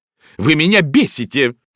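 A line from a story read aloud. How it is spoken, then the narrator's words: Shouting. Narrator (Russian): крикнула хозяйка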